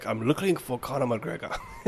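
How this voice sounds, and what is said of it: Bad put-on Russian accent. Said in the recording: “terrible, terrible Russian accent ... how was my Russian accent?”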